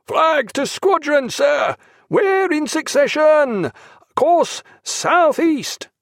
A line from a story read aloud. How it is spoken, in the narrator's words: over the roaring of the boatswain